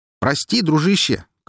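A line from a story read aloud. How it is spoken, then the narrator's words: Shouted reply. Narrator (Russian): крикнул в ответ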